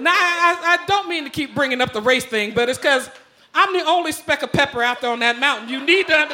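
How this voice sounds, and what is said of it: Usual voice. Nothing is said of it.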